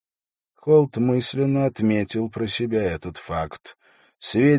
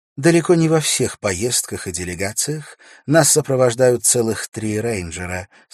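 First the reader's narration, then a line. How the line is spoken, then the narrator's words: Plain. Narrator (Russian): сказала она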